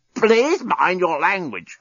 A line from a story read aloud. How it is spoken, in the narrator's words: croaked the despot